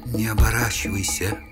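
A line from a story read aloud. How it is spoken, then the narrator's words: Quiet female whisper. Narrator (Russian): тихий шепот самой уродливой наемницы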